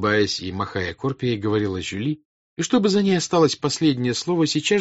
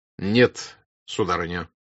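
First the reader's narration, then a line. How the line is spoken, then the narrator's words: Displeased tone. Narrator (Russian): продолжал Пьер недовольным тоном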